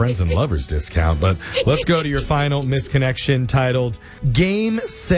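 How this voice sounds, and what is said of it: Usual voice. Nothing is said of it.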